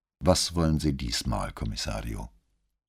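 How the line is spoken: Calm, composed, uninterested. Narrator (German): Seine Stimme klang ruhig und gefasst, ohne jede Spur von Neugier oder Interesse

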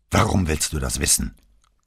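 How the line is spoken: Gruff growl. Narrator (German): knurrte Marco genauso unwirsch wie vorhin am Telefon

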